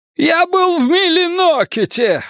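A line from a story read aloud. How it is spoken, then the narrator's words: Shrieked. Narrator (Russian): взвизгнул Элькаток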